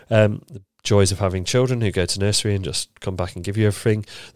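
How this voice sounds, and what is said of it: Nasal, congested voice. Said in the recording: “You can maybe hear in my nose as well. I've got a little bit of a cold.”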